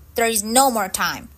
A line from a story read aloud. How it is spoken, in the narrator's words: replied Max urgently